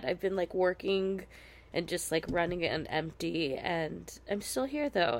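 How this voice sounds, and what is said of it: Sick-sounding voice. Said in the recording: “I am coming to you very sick right now ... apologize for my voice”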